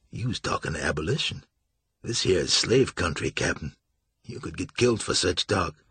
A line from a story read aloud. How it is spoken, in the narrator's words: said softly